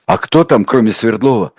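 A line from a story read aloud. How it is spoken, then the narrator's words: Barely audible question. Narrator (Russian): спросил Гровский еле слышно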